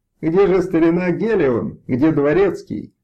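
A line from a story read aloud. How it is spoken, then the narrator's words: Exclaimed. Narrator (Russian): воскликнул один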